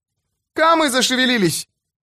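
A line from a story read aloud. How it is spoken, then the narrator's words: Boy shouting. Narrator (Russian): это кричал мальчишка по имени Вьюнок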